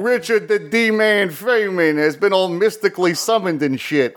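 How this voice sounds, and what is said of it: Feynman impression sounding like Dice Clay. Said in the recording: “You do have an accent, though. I don't know that that's really hitting it right ... This is really more of a Dice Clay”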